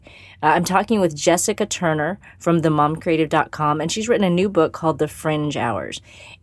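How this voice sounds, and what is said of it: Sick, congested voice. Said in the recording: “if you can't already tell from my voice... I'm sick. I don't usually sound like this.”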